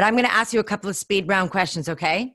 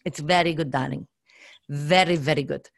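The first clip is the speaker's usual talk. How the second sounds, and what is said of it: Put-on Russian accent. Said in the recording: “How's your Russian accent?”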